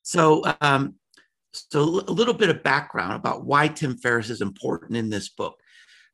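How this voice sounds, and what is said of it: Slightly hoarse voice. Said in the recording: “I'm a little hoarse this morning. It's big time allergy season”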